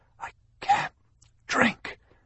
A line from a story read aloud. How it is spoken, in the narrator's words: gasped